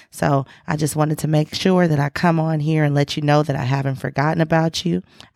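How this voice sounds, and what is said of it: Hoarse, fading voice. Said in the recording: “my voice is going away ... I'm back losing my voice”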